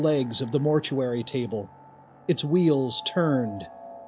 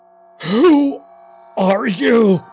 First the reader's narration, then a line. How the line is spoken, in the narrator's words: he shrieked